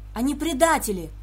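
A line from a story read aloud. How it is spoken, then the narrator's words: Shouting. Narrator (Russian): закричал Вард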